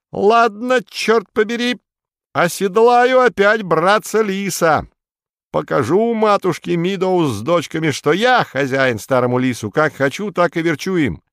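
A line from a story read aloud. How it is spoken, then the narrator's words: Sudden shout. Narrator (Russian): вдруг вскочил, да как крикнет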